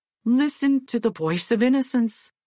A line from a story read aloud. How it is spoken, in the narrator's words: exclaimed his father